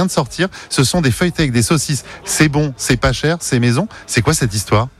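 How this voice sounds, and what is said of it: Usual voice. Nothing is said of it.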